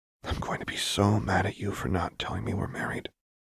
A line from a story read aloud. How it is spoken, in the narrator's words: Lux whispered